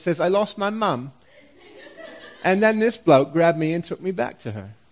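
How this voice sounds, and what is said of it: Poor put-on British accent. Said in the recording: “that is a terrible British accent”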